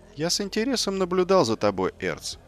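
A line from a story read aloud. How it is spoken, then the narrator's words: Plain. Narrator (Russian): сказал Нарби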